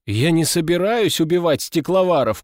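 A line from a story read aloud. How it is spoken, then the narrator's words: Shout from crowd. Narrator (Russian): крикнул кто-то из зеленок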